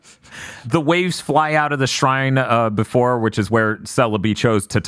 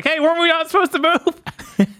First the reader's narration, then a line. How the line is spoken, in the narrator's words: he yells